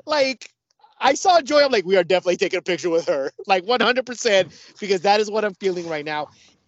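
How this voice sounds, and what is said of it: Noticeably upbeat, happy-sounding voice. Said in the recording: “you can tell from my voice that I am in a completely different mood ... completely different mood”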